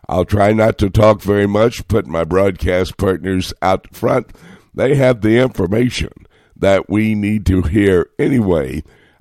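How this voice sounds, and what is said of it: Hoarse voice with a cold. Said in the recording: “you can probably tell by my voice that my annual summer cold has arrived and attacked my throat ... put up with my voice”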